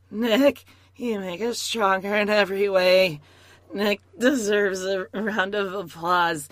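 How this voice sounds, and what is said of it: Forced, overly kind imitated voice. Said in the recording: “Jennifer voice, which is just like this. It's very forced. It's very kind”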